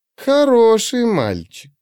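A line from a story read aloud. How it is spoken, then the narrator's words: Meaningful drawl, smirking. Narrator (Russian): многозначительно протянула она и усмехнулась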